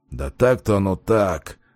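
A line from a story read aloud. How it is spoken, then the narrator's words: Unsure mumble. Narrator (Russian): пробормотал он уже куда менее уверенно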